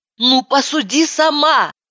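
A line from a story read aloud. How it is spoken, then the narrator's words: Shout. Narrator (Russian): закричала я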